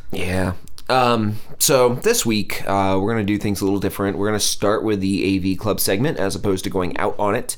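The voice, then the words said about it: Congested, slightly off-sounding voice. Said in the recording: “if I sound a little off this week, I have a head cold.”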